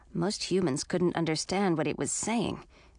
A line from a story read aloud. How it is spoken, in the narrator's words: Edric muttered